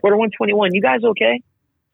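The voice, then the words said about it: Put-on Canadian accent. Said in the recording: “Canadian accent, by the way.”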